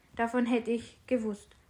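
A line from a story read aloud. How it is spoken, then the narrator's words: Plain. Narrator (German): sagte er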